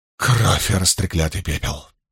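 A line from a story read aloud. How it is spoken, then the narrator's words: Mutter. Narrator (Russian): пробормотала Илэйн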